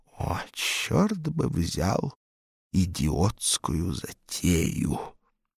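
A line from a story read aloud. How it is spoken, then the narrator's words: Hiss. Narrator (Russian): Савелью Антоновичу, прошипевшему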